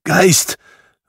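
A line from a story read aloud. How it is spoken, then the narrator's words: Trembling call. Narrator (German): rief Scrooge mit bebender Stimme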